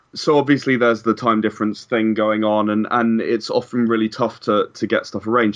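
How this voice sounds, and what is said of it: English accent. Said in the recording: “As some of the listeners may be able to notice from my accent, I'm actually from England.”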